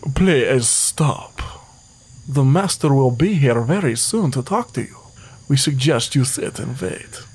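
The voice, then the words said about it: Put-on Transylvanian vampire accent. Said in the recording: “Vampire accent, very hard to do. ... Transylvanian”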